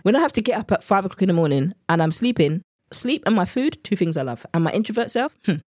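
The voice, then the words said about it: English accent. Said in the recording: “my English accent has come out now”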